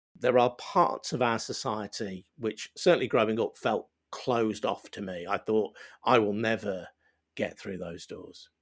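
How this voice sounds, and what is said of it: Regional working-class British accent. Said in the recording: “identifiable regional accent, identifiable working class accent”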